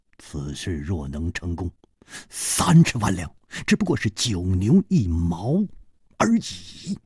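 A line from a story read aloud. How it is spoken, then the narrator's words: Deep, grave voice. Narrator (Chinese): 张孝林沉声说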